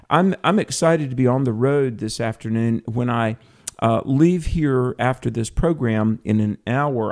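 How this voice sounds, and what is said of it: Southern American accent. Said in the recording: “I am from the South ... if you recognize my voice, Southern accent, and all”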